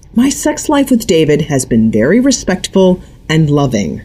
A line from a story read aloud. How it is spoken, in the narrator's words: Corey said through gritted teeth